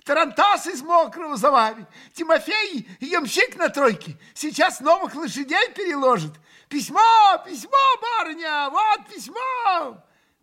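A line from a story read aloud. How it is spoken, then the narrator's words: Shouting. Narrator (Russian): кричала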